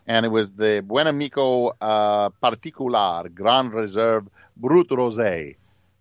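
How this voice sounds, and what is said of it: Sudden put-on foreign accent. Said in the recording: “I don't know why I suddenly developed an accent”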